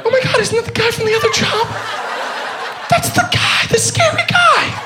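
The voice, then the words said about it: Unusually high-pitched voice. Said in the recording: “Why am I talking in such a high voice? It's ridiculous.”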